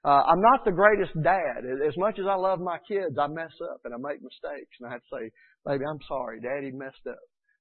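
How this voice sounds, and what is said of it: Georgia Southern twang. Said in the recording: “I've got that Georgia twang”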